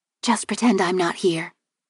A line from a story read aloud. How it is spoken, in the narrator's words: she whispered cheerfully